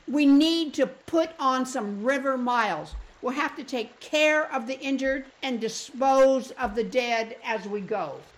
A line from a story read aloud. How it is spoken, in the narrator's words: barked Sheila